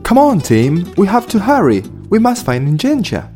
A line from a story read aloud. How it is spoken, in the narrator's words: said Sonda